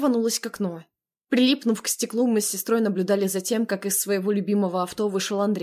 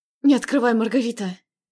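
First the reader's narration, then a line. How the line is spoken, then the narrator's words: Pleading. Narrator (Russian): взмолилась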